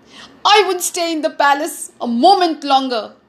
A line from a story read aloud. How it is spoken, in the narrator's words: he shouted